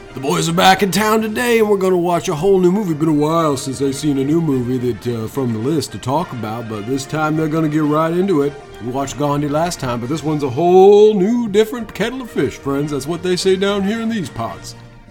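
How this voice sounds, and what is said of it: Put-on Southern Louisiana-style accent. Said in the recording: “Are you from Louisiana? ... I drank a lot tonight, so I don't know what quite how it happened to my accent.”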